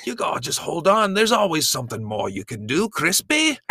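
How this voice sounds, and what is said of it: Bad put-on accent. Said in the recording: “I thought you were done with trying accents. ... It's so bad.”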